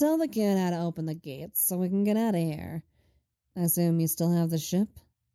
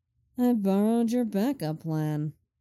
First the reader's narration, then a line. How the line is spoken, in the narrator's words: Lenny drawls